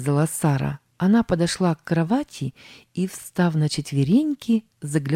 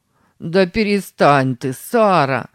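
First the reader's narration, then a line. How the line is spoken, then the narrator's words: Laughing. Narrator (Russian): засмеялся Сэм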